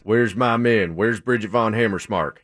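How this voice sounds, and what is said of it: Imitates another person's voice. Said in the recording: “your accent, your Brad Pitt accent was good. Really good. ... You hit it right on the mark, buddy.”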